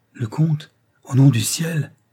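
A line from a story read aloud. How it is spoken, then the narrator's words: Exclaimed. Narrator (French): s'écria la baronne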